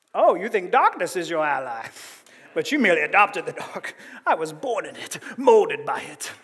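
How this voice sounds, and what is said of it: Movie villain accent impression. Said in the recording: “some of y'all are like Bane ... no one can do the Bane accent well”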